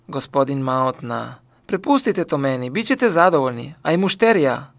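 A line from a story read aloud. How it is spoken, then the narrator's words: Calm reply. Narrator (Croatian): Florian mirno uzvratio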